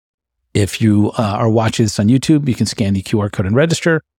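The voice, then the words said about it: Slightly hoarse, fading voice. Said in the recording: “I am losing my voice a little bit”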